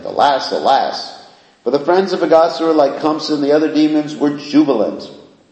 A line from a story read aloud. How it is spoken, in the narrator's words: the demigods hidden behind the clouds exclaimed